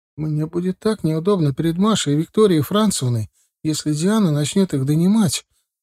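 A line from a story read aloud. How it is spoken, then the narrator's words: Sobbing. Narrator (Russian): начав рыдать, сказала жена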